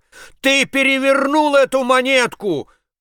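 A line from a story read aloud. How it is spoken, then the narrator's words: Shout. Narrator (Russian): крикнул я ему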